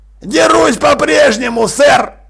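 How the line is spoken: Shouted. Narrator (Russian): крикнул Джекрам

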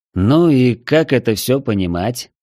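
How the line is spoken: Tired question. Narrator (Russian): устало спросил я

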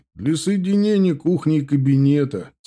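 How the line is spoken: Laughing explanation. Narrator (Russian): смеясь, объяснил отец

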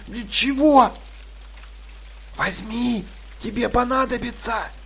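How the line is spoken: Whispered reply. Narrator (Russian): шепотом ответили ей

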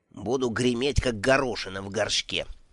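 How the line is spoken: Little turtle grumbling. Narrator (Russian): проворчала черепашка

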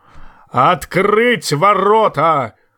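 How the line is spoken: Thunderous roar. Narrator (Russian): взревел громовым голосом Большой Лидль

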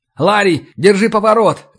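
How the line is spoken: Shouting. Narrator (Russian): крикнул я

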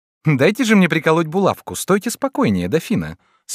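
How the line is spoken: Laughing little girl. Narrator (Russian): смеясь сказала маленькая Маргарита

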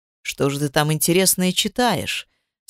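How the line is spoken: Plain. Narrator (Russian): спросил супруг

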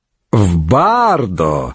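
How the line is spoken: Mocking remark. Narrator (Russian): насмешливо заметил Урбан Горн

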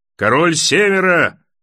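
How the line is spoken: Roaring. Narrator (Russian): взревел Большой Джон

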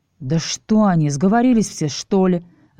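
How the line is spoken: Angry thought. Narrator (Russian): зло подумал я

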